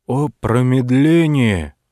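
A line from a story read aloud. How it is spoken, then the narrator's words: Old hermit exclaiming. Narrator (Russian): воскликнул отшельник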